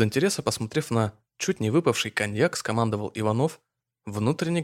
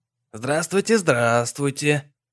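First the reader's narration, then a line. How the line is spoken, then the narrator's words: Catlike purr. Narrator (Russian): Покошачьи промурлыкал Марик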